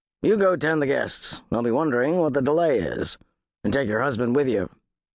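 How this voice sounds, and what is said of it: Gruff male character voice. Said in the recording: “in his usual gruff voice”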